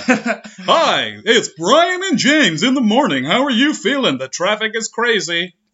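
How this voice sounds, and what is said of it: Fake radio DJ voice. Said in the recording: “fake radio voice”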